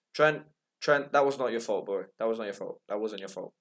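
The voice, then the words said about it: English accent. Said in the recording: “you can hear by my accent that I'm English”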